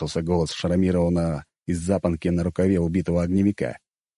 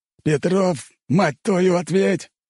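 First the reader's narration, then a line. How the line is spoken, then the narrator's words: Bearded man yelling. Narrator (Russian): заорал бородач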